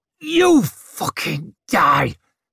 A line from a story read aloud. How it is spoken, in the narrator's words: growled Judge